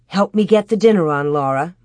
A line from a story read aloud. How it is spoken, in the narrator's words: Ma said